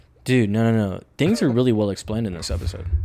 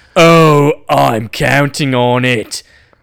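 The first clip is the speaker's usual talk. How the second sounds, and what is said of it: Put-on accent voicing Clark. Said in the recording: “I did accent for Clark right there.”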